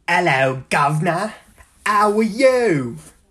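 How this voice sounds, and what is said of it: Put-on English accent. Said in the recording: “That's my English accent. ... If you thought that English accent was fantastic”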